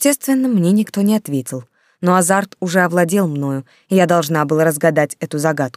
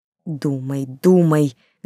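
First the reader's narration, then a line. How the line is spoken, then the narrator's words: Fervent whisper. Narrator (Russian): горячо шептала я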